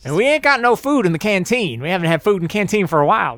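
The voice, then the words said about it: Character voice with put-on accent. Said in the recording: “Mrs. Crow's accent's going to change. ... Now she's definitely settling on some kind of yeah, accent.”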